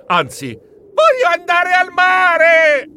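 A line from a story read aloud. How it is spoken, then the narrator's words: Yelling. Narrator (Italian): le mie urla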